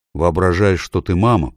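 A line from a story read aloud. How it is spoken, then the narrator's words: Grumbled. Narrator (Russian): проворчал Эдмунд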